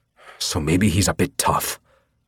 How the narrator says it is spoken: said through gritted teeth

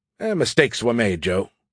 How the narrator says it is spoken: Skippy said in a dismissive voice that was way more cheery than I expected given the situation

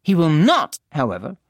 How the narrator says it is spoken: she added firmly

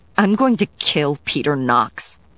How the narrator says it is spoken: Diana said fiercely

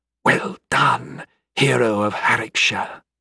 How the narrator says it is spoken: whispered

